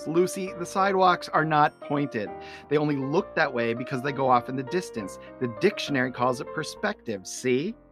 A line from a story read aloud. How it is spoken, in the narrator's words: Charlie Brown yells